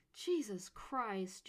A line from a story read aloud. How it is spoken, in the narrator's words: Jade exclaimed